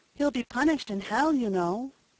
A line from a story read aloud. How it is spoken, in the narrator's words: said Peter timidly